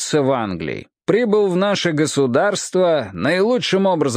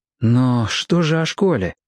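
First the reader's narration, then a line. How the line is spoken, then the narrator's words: Hoarse, impulsive question. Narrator (Russian): не удержался и спросил Роб хриплым голосом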